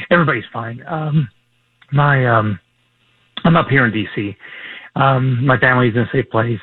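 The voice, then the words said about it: Hoarse, failing voice. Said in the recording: “lose my voice.”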